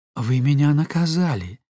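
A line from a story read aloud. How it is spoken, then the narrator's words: Plain. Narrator (Russian): сказала она ему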